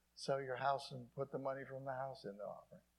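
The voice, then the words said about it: Sarcastic tone. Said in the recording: “I'm just being sarcastic there.”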